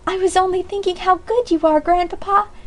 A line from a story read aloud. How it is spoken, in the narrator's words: exclaimed Polly fervently